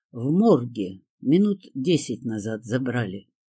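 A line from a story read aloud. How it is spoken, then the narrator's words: Calm reply. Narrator (Russian): спокойно ответил мне Киря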